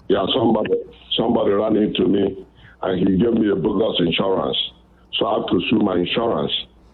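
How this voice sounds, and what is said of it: Nigerian English accent. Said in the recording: “I love that accent. Where are you from ... I'm from Nigeria, West Africa ... Sometimes I can't tag the accents from which African country”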